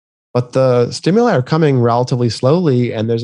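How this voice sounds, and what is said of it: Usual voice. Nothing is said of it.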